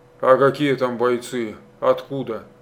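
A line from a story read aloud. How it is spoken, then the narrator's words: Plain. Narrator (Russian): спросил Полетаев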